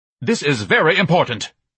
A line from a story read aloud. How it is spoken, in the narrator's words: Ignatius shouted worriedly